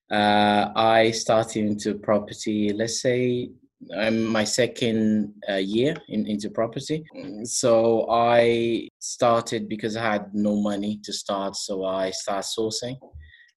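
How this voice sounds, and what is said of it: Portuguese accent. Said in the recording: “I'm from Portugal, as you can see from my accent.”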